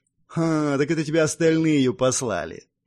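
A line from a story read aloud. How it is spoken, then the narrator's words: Knowing snort. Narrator (Russian): понятливо хмыкнув, произнес Ярослав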